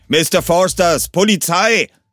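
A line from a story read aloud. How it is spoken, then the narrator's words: Roar from outside. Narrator (German): brüllte es von außen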